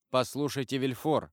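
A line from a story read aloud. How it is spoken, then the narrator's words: Plain. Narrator (Russian): сказал де Авриньи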